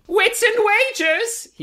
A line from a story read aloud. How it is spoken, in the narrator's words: he yells, apropos of nothing